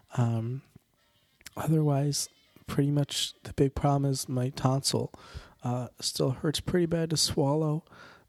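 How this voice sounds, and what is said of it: Congested, sick-sounding voice. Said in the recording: “I still have some nasal congestion ... My voice is not back to normal”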